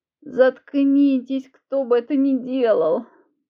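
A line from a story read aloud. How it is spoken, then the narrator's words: Moaning. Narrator (Russian): простонала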